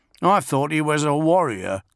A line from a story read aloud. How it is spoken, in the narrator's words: grumbled the sulking youth Tulik